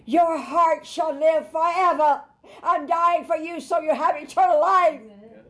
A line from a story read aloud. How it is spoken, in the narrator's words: he cried out to you